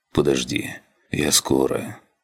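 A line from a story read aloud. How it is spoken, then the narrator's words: Quiet. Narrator (Russian): тихо проговорил он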